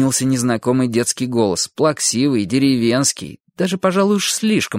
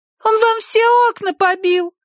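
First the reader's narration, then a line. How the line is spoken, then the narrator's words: Thin shrill squeak. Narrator (Russian): пропищал кто-то тоненьким визгливым голоском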